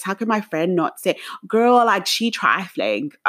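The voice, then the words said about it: Attempted put-on accent. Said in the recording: “This is me trying to do an accent because, guys, as you can hear, my accent's very different.”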